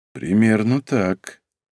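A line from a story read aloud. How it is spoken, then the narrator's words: Quiet, absent-minded. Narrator (Russian): произнес он тихо, пребывая в этот момент в своих мыслях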